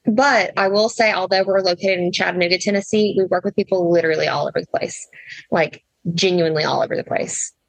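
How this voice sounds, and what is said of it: Slight Southern twang. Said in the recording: “if you hear a little Southern twang, that's why.”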